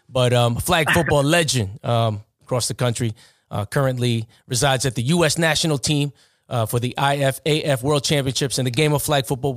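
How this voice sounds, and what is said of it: Thick New York accent. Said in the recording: “My New York accent is so thick”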